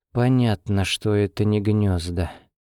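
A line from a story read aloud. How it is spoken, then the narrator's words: Uneasy mutter. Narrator (Russian): пробормотала она, чувствуя, как по спине пробегает холодок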